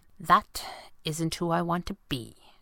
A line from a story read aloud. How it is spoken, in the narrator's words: she said quietly